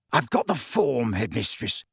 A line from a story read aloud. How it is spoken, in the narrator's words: he said hoarsely